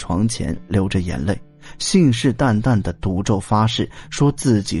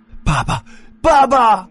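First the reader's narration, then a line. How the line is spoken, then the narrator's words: Wailing and crying. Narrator (Chinese): 大哭大叫起来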